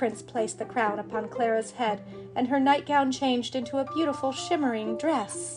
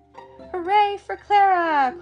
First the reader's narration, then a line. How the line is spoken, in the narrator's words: cried the people from the Land of Sweets